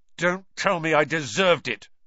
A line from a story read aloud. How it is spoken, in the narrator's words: snapped Ron